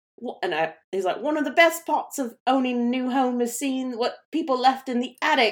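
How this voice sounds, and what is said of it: Badly imitated accent of a cartoon lizard. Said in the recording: “that's such a bad accent”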